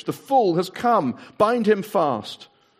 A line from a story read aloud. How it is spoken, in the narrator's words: she cried, the witch